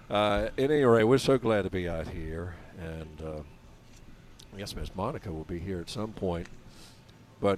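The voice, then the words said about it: Rusty, rough morning voice. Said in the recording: “I apologize for my voice this morning. It's a little rusty.”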